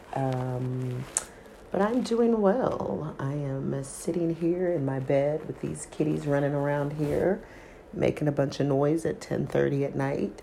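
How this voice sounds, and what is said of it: Voice affected by a cold. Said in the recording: “As you can probably hear in my voice, I'm just getting over a little cold from last week.”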